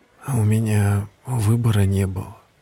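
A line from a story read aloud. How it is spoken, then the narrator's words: Quiet reply. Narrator (Russian): тихо ответил Мартин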